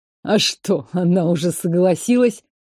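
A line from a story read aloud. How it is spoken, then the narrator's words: Scoffing snort. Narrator (Russian): хмыкнул экс-повар Гордеевых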